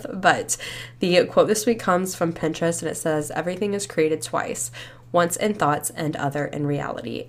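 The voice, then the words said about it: Breathless, slightly congested voice. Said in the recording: “I'm like out of breath right now... I feel like I still sound a little sopped up... so I'm like out of breath”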